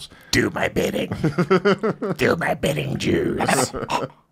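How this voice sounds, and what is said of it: So-so impression of RFK's voice. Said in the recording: “That's my impression of RFK. ... It was all right. I mean, it could be better. ... I know he's got a crazy voice.”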